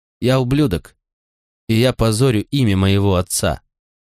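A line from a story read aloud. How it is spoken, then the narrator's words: Calm. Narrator (Russian): спокойно сказал я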